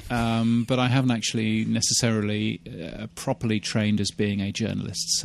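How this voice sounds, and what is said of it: British accent. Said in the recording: “I've been a broadcaster in the UK for a long, long time, as you can tell from my stupid accent”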